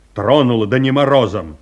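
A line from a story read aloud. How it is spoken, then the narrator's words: Curt. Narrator (Russian): отрывисто сказал Павел Антонович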